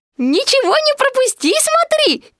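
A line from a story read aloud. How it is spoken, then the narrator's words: Squeaky. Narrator (Russian): пискнул пятачок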